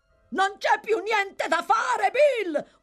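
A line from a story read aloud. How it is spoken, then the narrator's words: Yelling. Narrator (Italian): urlò Toby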